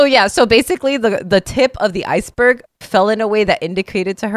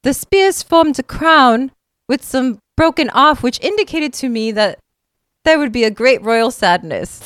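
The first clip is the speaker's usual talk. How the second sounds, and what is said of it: Put-on posh accent, slipping. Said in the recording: “That accent fell off really quick. ... it was pretty good. ... It was more posh than”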